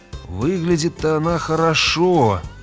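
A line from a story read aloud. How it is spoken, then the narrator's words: Muttered through teeth. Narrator (Russian): процедил Грегор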